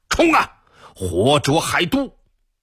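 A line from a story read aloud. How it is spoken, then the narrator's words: Furious shout. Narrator (Chinese): 铁木儿气愤至极，大喊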